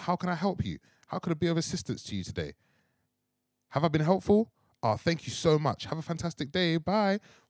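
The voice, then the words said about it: Polite formal work voice. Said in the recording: “put on my work voice”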